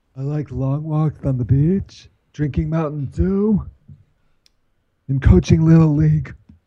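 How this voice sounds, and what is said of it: Poor imitation of another person's voice. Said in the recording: “Your impersonation of me is even worse than my impersonation”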